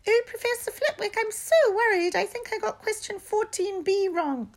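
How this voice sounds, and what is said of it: Put-on high-pitched voice. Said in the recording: “put on a high voice.”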